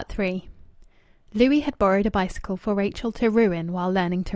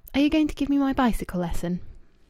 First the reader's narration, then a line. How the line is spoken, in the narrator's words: She breathed relief and asked